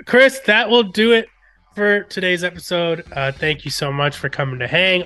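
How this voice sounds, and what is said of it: Odd-sounding, sick voice. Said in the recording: “I sound so weird today. I'm fighting through a little bit of a cold.”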